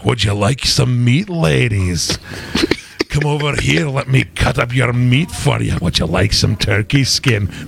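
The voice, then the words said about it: Put-on Scottish accent. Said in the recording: “with a Scottish accent.”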